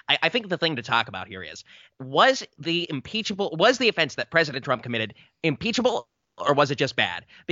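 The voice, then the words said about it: High-pitched, super fast imitated voice. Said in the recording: “the weird high pitched, super fast talking Shapiro voice ... I'll do my Shapiro voice.”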